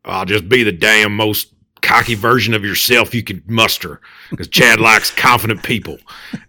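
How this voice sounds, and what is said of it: Imitates another person's voice. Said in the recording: “that is a perfect imitation of our friend ... That is perfect. So and it's actually very good”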